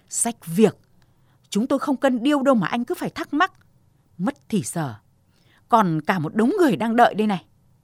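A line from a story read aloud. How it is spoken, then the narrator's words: Snapping angrily. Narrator (Vietnamese): Bà nhân viên lương thực gắt tướng lên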